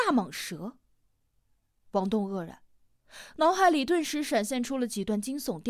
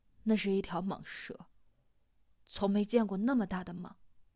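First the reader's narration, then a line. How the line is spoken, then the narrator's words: Sighing, low voice. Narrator (Chinese): 叹了一口气，放低了声音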